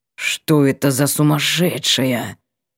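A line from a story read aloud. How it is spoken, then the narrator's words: Disgusted hiss. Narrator (Russian): прошипел он брезгливо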